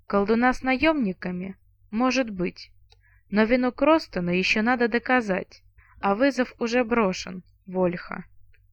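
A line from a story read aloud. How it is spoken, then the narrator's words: Sigh. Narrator (Russian): Вздохнул Роллер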